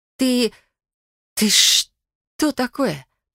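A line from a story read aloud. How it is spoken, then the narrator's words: Hoarse rasp. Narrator (Russian): прохрипела я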